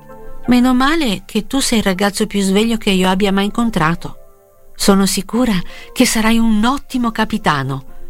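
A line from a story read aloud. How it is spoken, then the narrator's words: Girl, smiling, encouraging exclamation. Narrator (Italian): esclamò la ragazza sorridendo al piccolo cinese per fargli coraggio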